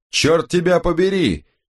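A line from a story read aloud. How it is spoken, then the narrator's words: Roaring. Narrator (Russian): проревел Томас Бленке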